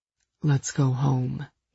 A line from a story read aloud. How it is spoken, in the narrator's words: Gideon murmured